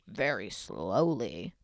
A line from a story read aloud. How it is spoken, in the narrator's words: the other, making believe he was Harold, would answer in a crazy voice